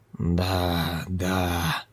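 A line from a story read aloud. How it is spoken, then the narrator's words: Muttered. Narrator (Russian): пробормотала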